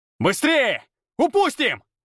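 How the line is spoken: Yelling. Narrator (Russian): орал я

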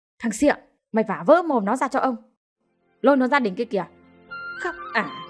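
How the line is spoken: Furious old man shouting. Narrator (Vietnamese): Cụ ký cáo tiết, quát

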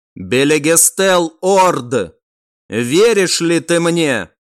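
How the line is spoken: Loud formal pronouncement. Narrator (Russian): В официальном тоне громко произнес некромант

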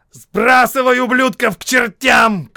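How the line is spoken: Shouting. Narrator (Russian): крикнул Локхард

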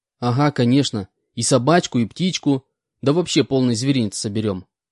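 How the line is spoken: Plain. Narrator (Russian): ответил я

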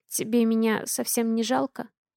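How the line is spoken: Very quiet question. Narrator (Russian): Тихо, очень тихо спрашиваю я

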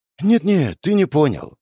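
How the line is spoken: Sigh. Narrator (Russian): вздохнул я

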